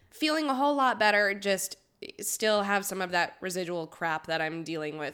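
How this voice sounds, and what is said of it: Congested, sniffly voice. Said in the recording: “My voice is still a little wonky and I'm still a little sniffly from COVID.”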